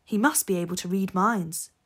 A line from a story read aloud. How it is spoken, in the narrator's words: Steve replied